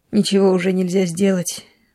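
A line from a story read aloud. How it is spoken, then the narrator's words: Sighing. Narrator (Russian): вздохнул хозяин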